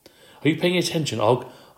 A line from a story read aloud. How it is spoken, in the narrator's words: I squeaked